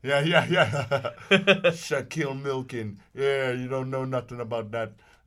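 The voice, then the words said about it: Shaq impression, out of mouth's side. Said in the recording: “do your Shaq impression. You talk out the side of your mouth.”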